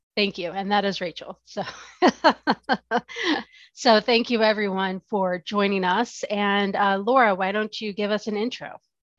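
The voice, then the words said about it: Voice sounds sick. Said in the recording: “I'm a very sick ... That's why my voice sounds like this.”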